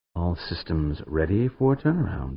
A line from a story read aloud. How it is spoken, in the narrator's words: Amanda murmured